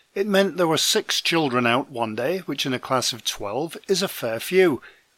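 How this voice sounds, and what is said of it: Voice sounds different, sick with cold. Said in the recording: “my voice sounds a little different ... my son came home with a cold ... now it's my turn”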